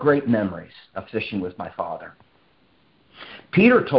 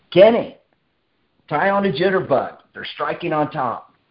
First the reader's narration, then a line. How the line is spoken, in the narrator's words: my dad would shout from the other side of the stock tank